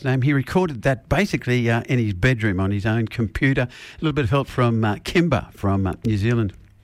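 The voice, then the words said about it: Australian accent. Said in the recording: “from my accent, that I was from Australia”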